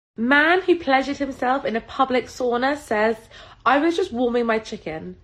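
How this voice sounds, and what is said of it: Northern English Salford accent. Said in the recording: “it's from England... Salford, England... she's got an accent, but I think you can understand this”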